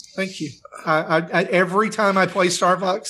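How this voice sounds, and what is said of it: Usual voice. Nothing is said of it.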